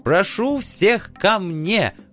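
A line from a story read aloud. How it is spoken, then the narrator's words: Excited yelling. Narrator (Russian): возбужденно вопил оживший владелец замка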